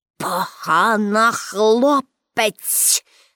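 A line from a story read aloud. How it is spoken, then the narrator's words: Director hissing through teeth. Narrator (Ukrainian): засичав крізь зуби директор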